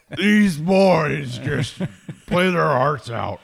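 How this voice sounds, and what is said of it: Imitates another person's voice. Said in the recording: “my Coach O impression”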